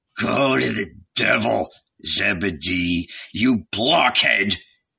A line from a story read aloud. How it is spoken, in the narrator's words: he grumbled